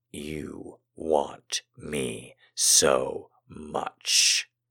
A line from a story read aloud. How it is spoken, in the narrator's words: I murmured